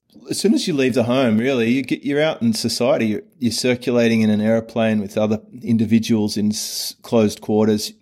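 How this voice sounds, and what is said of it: Mild neutral Australian accent. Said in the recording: “Your accent is not that thick, man. ... I have a very neutral Australian accent”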